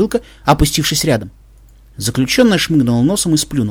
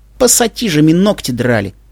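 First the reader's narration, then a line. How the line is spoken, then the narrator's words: Angry. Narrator (Russian): зло сказала она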